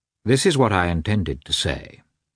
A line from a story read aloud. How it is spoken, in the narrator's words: he continued, coldly and calmly